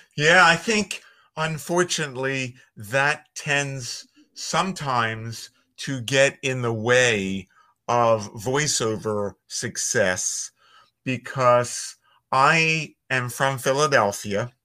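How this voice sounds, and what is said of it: Philadelphia accent. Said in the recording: “I have a Philly accent”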